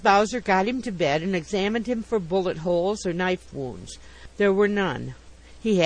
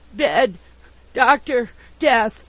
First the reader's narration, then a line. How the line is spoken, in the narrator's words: gasped in reply